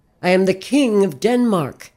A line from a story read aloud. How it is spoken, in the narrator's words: shouted